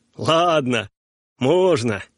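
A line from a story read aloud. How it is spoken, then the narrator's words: Joyful uncle. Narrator (Russian): радостно сказал дядя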